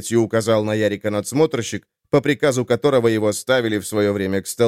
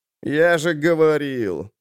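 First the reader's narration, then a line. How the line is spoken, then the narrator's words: Whining under breath. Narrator (Russian): заскулил себе под нос Фавиз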